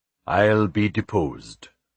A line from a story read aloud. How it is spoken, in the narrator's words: Philip said grimly